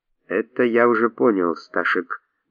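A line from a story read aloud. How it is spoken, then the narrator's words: Quiet old man. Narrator (Russian): негромко произнес старый китаец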